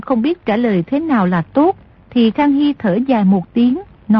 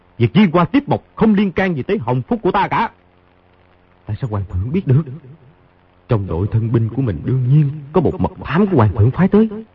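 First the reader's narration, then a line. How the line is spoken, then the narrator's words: Cold snorting. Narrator (Vietnamese): Khang Hy hừ một tiếng, lạnh lùng nói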